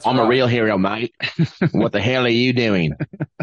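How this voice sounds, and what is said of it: Put-on Australian accent. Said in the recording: “he's got an Australian accent”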